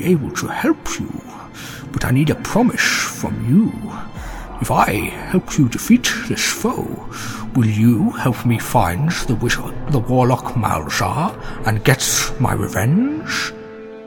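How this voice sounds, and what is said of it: Character voice for a dragon. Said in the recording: “does my Sean voice sound too close to Gorlak?”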